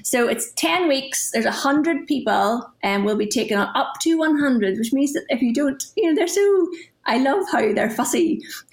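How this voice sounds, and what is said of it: Northern Irish accent. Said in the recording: “I live in Northern Ireland, in case people can't tell by my accent.”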